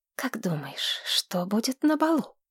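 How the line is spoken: Curious. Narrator (Russian): заинтересовалась Тамира

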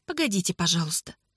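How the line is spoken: Quiet. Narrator (Russian): тихо сказала Анна

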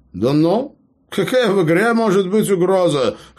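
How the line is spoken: Scoffing snort. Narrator (Russian): хмыкнул Эбер

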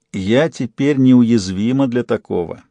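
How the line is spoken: Mocking tone. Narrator (Russian): насмешливо сказала

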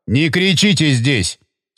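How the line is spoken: Stern rebuke. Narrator (Russian): строго одернул его Горюнов

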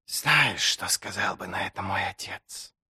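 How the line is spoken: Muffled, hoarse, old-sounding. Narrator (Russian): Голос звучал глухо и хрипло, как голос старика, и совсем не подходил такому гладкому личику

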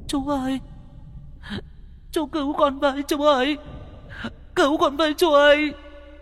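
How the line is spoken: Tearful child's plea. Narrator (Vietnamese): con bé Nhi nhìn cậu mếu máo

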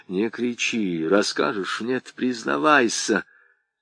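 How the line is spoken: Furious whisper. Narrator (Russian): Топорков яростно зашептал в ухо парню

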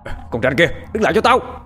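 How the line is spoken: Group shouting. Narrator (Vietnamese): Chúng quát lên

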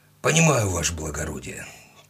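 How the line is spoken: Heavy sigh. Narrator (Russian): тяжело вздохнул Степан

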